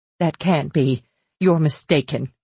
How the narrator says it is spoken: I shouted

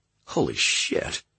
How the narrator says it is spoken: Josh said under his breath

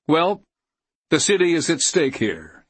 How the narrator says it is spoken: he told them flatly

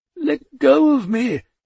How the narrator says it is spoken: Death wailed

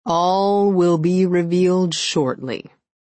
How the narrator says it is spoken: he drawled

